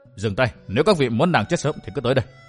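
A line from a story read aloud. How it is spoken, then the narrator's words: Low sharp command. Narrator (Vietnamese): Vân Thiên Nhạc quát khẽ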